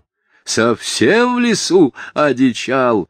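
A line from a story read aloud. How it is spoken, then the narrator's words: Loud agitated shout. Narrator (Russian): опять громко крикнул председатель, понебратствуя от волнения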